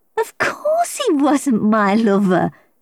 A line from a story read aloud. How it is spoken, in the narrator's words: laughed